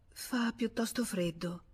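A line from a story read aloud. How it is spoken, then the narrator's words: She murmured. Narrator (Italian): mormorò lei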